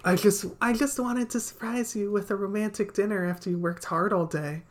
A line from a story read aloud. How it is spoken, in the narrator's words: I said sweetly